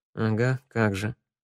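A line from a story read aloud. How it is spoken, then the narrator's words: Female grumbling. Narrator (Russian): пробурчала Санда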